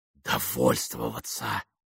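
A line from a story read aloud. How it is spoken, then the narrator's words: Whispered in ear. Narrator (Russian): прошептала Мэйвис на ухо Бену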